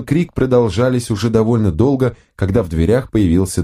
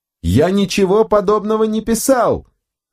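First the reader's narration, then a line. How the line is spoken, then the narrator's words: Yelling. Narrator (Russian): орал Бернард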